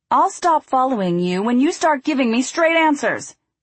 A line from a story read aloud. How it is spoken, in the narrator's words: he yelled